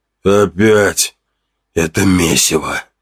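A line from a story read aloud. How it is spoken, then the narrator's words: Grumbling. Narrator (Russian): ворчал он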